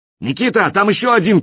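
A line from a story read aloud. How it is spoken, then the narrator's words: Shouted. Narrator (Russian): крикнул я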